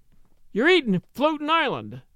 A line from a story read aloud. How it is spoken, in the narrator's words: she announced triumphantly